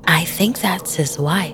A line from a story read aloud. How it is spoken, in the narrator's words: whispered Aaliyah